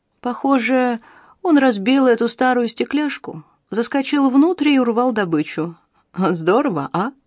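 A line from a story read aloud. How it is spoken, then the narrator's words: Guileless, from another room. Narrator (Russian): Из помещения до нее донесся голос Бобби, который сказал простодушным тоном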